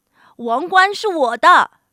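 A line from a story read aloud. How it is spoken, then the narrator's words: Bear shouting. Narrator (Chinese): 熊大喊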